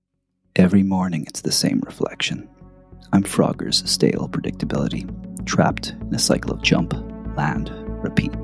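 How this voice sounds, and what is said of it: American accent, dramatic reading. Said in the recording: “your American accent”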